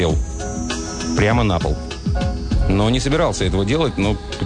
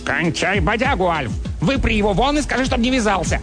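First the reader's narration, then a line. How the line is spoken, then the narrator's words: Barked. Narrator (Russian): Чарли рявкнул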